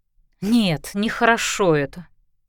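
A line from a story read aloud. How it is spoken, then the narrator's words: Mumbling. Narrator (Russian): промямлила подруга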